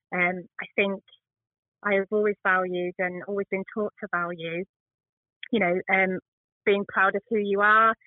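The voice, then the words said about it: Northern English accent. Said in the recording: “I have a northern accent.”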